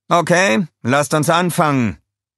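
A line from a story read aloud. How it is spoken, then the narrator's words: Said cheerfully. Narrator (German): sagte er fröhlich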